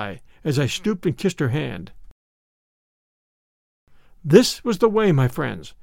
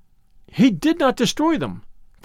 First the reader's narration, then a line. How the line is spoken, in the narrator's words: cried Lucia